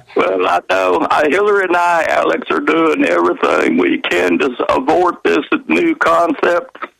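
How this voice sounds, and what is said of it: Imitates another person's voice. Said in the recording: “He's doing a Bill Clinton imitation.”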